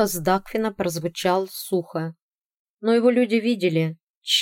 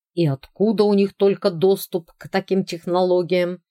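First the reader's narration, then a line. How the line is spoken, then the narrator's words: Irritated question. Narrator (Russian): раздраженно спросил Тим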